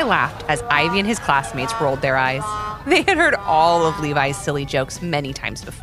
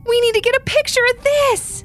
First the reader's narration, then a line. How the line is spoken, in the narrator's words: exclaimed Ivy